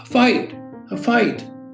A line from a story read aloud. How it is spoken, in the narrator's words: a woman shouted